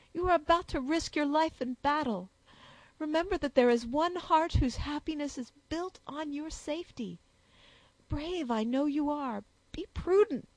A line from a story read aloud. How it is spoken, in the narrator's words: added the sobbing girl